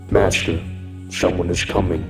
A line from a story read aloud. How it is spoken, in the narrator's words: Bishop said in a hushed tone